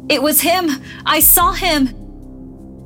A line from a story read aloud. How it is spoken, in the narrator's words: an old man stumbled into the restaurant screaming